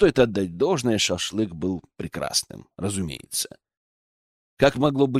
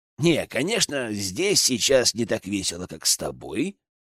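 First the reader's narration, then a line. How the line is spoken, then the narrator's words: Snorting. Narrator (Russian): хмыкнул Генка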